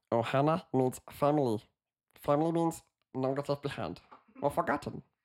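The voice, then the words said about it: Stitch impression, slightly German-sounding. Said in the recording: “my Stitch impression ... it's a little bit German ... It's Stitch if you went German”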